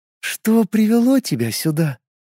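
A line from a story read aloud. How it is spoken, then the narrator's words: Soft flowing coo. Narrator (Russian): текучим нежным голосом проворковала Лилин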